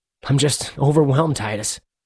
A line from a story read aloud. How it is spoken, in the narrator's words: Marcus said, his voice trembling